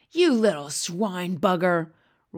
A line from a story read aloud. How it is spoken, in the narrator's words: roared the blood bottler